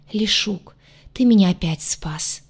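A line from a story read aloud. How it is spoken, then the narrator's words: Breathless exhale. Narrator (Russian): Выдохнула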